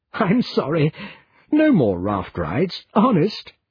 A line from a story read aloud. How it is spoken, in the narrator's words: she giggled